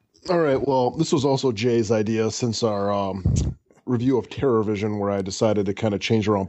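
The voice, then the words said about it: Wisconsin accent. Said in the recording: “especially when they hear my accent, which apparently I have an accent ... you definitely still have held on to most of your Wisconsin”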